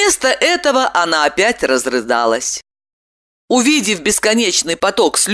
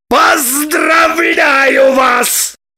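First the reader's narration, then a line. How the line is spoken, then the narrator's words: Shouted. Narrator (Russian): закричал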